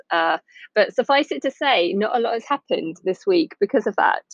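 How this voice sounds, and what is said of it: Husky, hoarse voice. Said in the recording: “I've got a little bit of a husky, sexy voice. I sound like I'm smoking 40 cigarettes a day at the moment ... I have this really annoying chest infection”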